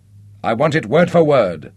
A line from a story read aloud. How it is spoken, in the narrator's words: snapped Nick irritably